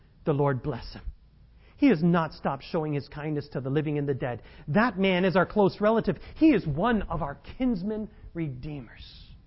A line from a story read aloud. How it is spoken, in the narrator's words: Naomi exclaimed